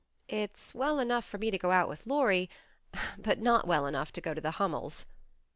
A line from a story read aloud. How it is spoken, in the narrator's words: said Joe, laughing, but looking a little ashamed of her inconsistency